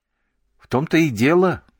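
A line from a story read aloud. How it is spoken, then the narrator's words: Exclamation. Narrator (Russian): воскликнул Коби и Мамура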